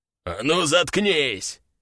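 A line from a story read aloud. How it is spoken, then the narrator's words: Growl. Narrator (Russian): снова прорычал тот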